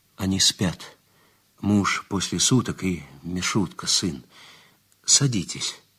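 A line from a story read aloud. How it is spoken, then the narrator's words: Quiet. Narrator (Russian): Женщина сказала негромко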